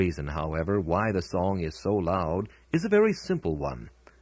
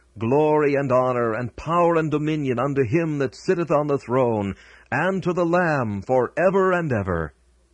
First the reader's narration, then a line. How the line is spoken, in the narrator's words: those who stand on the boundless plains of heaven, and with all their might shout